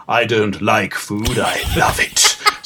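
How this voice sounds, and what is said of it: Put-on London English accent. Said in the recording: “Sounds like he came from London, England.”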